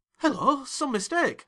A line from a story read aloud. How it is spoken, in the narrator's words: I exclaimed